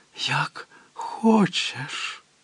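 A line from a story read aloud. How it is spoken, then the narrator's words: Whisper through a door. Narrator (Ukrainian): прошепотіла крізь двері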